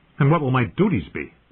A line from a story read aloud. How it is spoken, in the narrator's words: John asked sharply